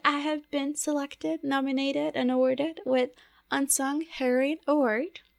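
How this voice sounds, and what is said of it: Speaks with a non-native accent. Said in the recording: “it's my accent. Don't blame it on me. It's my accent”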